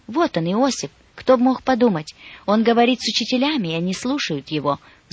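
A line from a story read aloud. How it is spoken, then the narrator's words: Excited, relieved whisper. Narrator (Russian): взволнованно прошептала Мария, не вмещая происходившее, но облегченно вздыхая от радости, что мальчик найден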